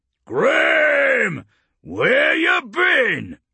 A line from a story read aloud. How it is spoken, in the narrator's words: Urgork barked